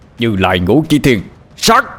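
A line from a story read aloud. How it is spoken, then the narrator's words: Shouted incantation. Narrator (Vietnamese): Ba Lành hét lên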